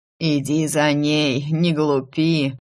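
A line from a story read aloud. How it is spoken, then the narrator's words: Old man's stern rasp. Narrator (Russian): строго прохрипел старик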